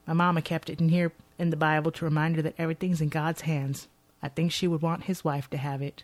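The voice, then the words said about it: Put-on Texas accent. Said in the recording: “my Texas accent ... it's beautiful, your Texas accent”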